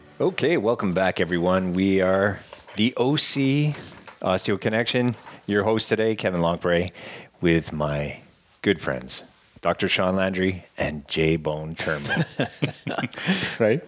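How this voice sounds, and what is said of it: Raspy, sultry voice. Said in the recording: “Actually, it's a bit raspy. ... It's sultry.”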